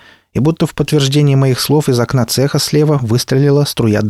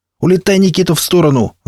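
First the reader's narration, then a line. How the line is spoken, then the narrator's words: Yell. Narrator (Russian): заорал я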